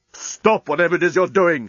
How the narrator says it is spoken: shouted Leovinus

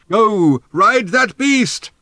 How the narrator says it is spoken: shouted Thrashbarg

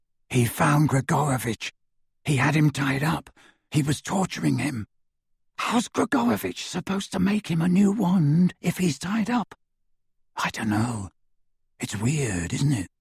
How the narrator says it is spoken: whispered into the darkness

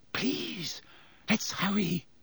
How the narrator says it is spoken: Hermione whispered

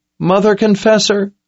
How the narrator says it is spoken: Owen pleaded

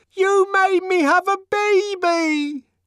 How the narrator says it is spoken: she screamed above the uproar

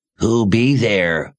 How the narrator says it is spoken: the raspy voice demanded

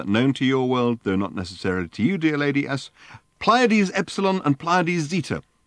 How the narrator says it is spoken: concluded Ford triumphantly

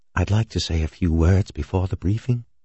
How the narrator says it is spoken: Floyd whispered to Halverson

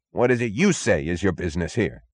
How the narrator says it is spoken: snapped the chief

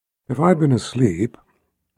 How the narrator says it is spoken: Nicky said in that calm, silken voice of hers

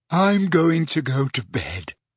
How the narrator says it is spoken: yawned Ginny

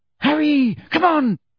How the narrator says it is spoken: shrieked Hermione from the center of the knot of people now fighting to get out

